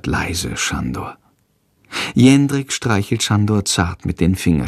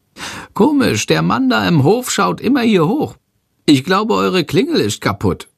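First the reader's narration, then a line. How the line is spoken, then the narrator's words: Calling out. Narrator (German): ruft Schandor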